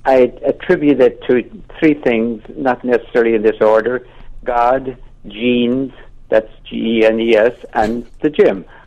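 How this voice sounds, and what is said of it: Irish accent with a lilt. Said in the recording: “he's Irish ... Tipperary ... You haven't lost much of the lilt?”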